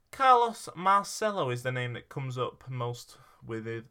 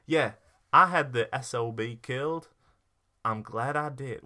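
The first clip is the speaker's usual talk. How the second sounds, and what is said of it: Put-on American accent. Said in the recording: “What accent am I doing?... You're doing some form of American”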